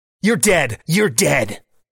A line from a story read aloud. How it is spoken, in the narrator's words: snaps the hoodie guy